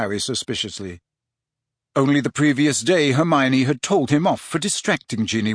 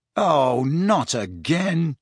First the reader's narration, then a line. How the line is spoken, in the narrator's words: he groaned